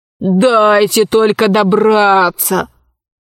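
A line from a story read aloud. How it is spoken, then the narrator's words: Gloomy. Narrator (Russian): мрачно сказал полковник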